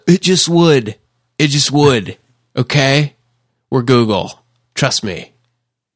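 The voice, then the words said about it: California surfer-style voice. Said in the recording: “That was my Google impression ... It's like California Surfer.”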